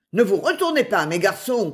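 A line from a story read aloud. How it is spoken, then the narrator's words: Shout. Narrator (French): cria le chef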